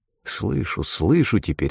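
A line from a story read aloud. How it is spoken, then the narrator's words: Muttered. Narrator (Russian): только порой пробормочет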